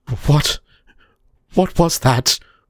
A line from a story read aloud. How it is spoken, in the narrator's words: William cursed the quaver in his voice